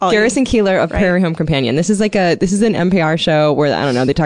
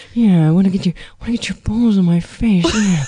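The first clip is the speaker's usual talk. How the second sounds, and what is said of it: Breathy imitation of another person's voice. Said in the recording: “your Garrison Keillor impression ... Just a lot of breathing.”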